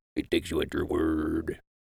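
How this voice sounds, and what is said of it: Mediocre Joker impression. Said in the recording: “as the Joker would say from The Dark Knight... Mediocre impersonation.”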